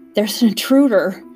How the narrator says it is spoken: panted Beavis

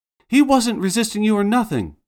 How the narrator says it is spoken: The same woman yells

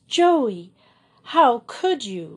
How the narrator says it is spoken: she cried reproachfully

